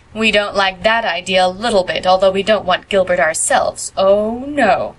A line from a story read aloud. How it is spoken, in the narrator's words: mocked Phil